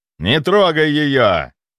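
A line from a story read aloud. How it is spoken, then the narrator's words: Growled. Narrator (Russian): рыкнул на меня Прат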